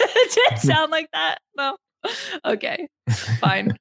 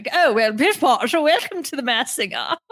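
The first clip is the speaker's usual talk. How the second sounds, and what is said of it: Stereotypical put-on British accent. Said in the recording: “stereotypical of a British accent.”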